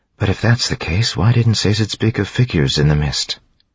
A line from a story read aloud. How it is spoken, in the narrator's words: She sighed